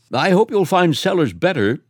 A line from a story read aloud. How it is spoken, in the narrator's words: said Varick, civilly